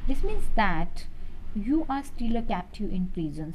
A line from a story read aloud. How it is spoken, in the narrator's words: stated Manjeet calmly